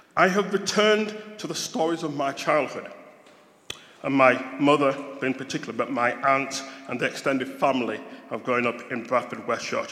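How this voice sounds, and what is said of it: Yorkshire English accent. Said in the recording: “this is a Yorkshire accent”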